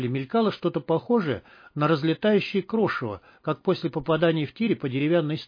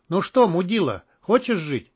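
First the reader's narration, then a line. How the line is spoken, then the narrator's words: Mocking shout. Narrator (Russian): издевательски крикнул мародер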